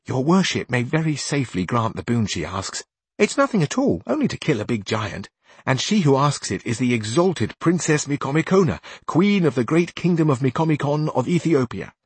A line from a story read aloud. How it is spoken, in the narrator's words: said to him very softly